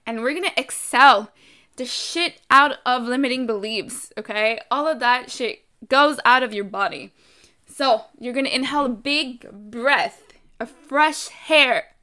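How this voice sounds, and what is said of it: French accent. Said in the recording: “my accent sometimes pops up, French accent.”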